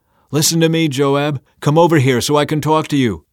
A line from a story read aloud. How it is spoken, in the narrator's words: a wise woman in the town called out to Joab